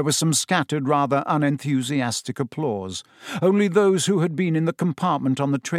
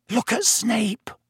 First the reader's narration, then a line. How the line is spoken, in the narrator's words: Ron hissed in Harry's ear